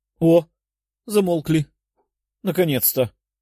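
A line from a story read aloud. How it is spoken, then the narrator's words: Breathed out, female gnome. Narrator (Russian): выдохнула гномка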